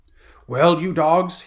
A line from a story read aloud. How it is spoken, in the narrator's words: he roared